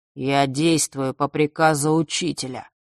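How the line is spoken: Muffled, hollow. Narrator (Russian): глухо произнес он

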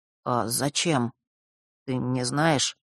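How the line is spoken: Very timid babbling. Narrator (Russian): пролепетал он необычайно робко

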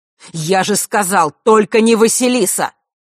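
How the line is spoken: Angry objection. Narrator (Russian): зло возразил Огнев

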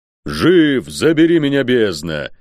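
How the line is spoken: Roared. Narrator (Russian): проревел тот

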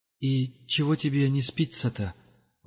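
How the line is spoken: Grumbling mutter. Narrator (Russian): ворчливо пробормотал пилигрим

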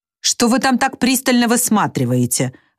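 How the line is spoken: Irritated question. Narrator (Russian): раздраженно осведомился Гомер у Душеньки

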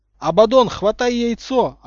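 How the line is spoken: Yelling. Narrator (Russian): орал Поттер

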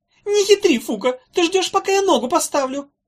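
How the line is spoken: Squeaky. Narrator (Russian): пищал Хнык

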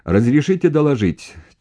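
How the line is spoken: Shouted reply. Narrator (Russian): кричал ему в ответ начальник артиллерии

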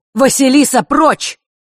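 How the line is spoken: Shouted out. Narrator (Russian): выкрикнул зодчий

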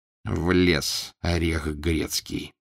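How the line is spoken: Annoyed muttering. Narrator (Russian): досадливо пробормотал обершталмейстер

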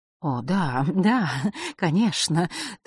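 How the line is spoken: Hurried, slightly frightened. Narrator (Russian): торопливо и немного испуганно произнесла она

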